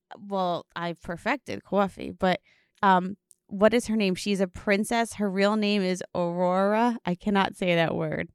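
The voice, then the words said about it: New Jersey accent. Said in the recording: “my Jersey accent doesn't allow me to say words properly ... my Jersey is just like, the R's don't know what to do”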